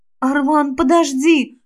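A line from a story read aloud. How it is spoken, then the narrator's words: Hoarse plea. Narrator (Russian): хрипло попросила я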